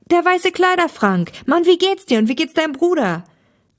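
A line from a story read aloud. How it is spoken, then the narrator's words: Joyful exclamation. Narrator (German): rief Thomas erfreut aus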